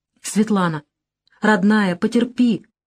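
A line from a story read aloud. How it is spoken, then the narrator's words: Hurried pleading. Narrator (Russian): просящим тоном торопливо сказал я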